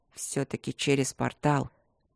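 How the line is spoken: Heavy mumble. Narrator (Russian): тяжело пробормотал Трот

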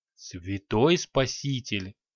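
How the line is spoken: Stunned breathless exclamation. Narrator (Russian): ошалело выдохнул великий магистр

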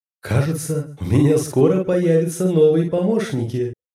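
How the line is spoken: Creature's loud laughter. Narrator (Russian): расхохоталась тварь

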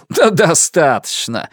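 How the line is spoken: Laughing shout. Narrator (Russian): смеясь, крикнул он

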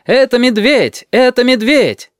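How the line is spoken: Shouting at full voice. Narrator (Russian): прокричали во все горло

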